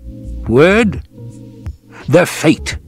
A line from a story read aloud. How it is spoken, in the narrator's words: Howard snapped